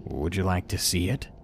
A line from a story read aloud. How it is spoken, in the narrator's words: He said it so calmly, as if he was trying to be seductive